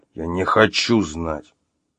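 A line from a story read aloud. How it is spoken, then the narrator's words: Growl. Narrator (Russian): прорычал Артем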